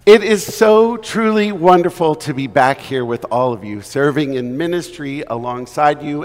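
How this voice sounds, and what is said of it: Slightly hoarse, failing voice. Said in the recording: “I am losing my voice a little bit”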